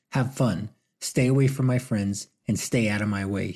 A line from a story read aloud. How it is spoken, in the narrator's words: he said firmly